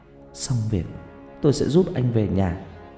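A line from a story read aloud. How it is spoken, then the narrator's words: Sobbing, muttered promise. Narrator (Vietnamese): Tôi nức nở lên từng cơn không dứt, cố nén cơn thổn thức rồi lẩm bẩm, hứa hẹn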